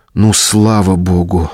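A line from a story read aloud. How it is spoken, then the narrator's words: Relieved exhale, on phone. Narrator (Russian): облегченно выдохнула она в трубку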